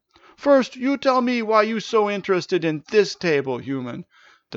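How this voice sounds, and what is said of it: Thick broken accent. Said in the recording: “roared the satyr with his thick, broken accent.”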